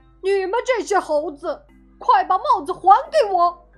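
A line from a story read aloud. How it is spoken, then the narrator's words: Angry shout. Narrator (Chinese): 他气呼呼地 又对猴子喊道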